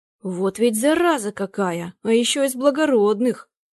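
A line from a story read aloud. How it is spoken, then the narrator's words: Grumbling. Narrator (Russian): ворчал он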